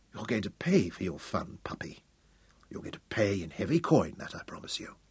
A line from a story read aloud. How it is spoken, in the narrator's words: he whispered